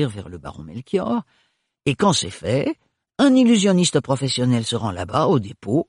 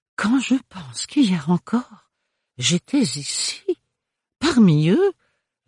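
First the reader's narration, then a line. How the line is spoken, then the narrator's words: Dismayed sigh. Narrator (French): soupira le baron Melchior d'une voix consternée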